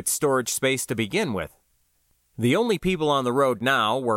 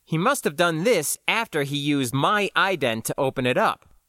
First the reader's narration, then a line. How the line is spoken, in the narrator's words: I said